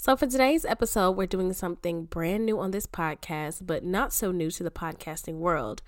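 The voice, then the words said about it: Sick-sounding voice. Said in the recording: “I don't know if y'all can tell by my voice, but your girl is a little sick”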